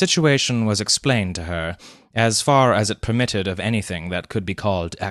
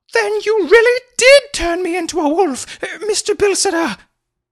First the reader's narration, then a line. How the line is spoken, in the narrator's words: she exclaimed excitedly